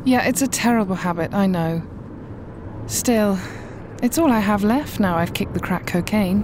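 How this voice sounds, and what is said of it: Upper-class British accent. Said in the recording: “Are you British? ... I love your accent. ... You sound really, like, upper class.”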